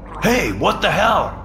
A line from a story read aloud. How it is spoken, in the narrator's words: somebody shouted